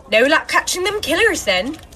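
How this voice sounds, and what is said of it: Put-on West Country English accent. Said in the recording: “murder in a West Country accent”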